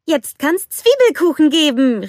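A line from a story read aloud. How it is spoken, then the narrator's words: Calling out. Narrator (German): rief Anna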